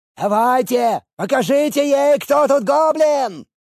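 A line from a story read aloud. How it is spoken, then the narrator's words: Yelling jazzman. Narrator (Russian): орал джазмен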